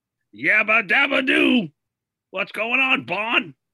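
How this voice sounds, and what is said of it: Cartoon character voice impression. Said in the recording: “What about Fred Flintstone?”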